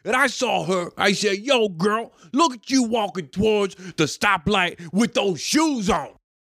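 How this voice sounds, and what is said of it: Imitates another person's voice, strained. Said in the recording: “I'm gonna butcher this... impersonation... it just sounded like a very constipated man”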